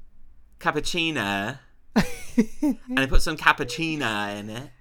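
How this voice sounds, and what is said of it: Impression of Freya saying cappuccino. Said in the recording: “the way that she said cappuccino had me going ... Can you do an impression?”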